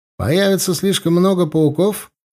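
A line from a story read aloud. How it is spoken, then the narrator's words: Cheerful. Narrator (Russian): бодро спросил Корнел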